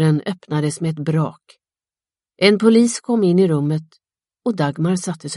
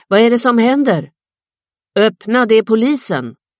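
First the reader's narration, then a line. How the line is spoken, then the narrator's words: Father shouting from bedroom. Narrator (Swedish): Far ropade från sovrummet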